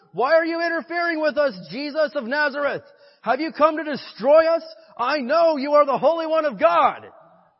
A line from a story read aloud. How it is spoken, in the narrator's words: a man in the synagogue who was possessed by an evil spirit began shouting